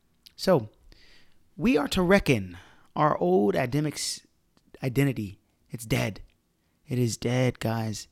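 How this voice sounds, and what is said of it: Hoarse, grungy voice. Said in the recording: “my voice is a little bit um, grungy. It's because I was yelling all weekend ... if my voice sounds a little bit off, it's because of that”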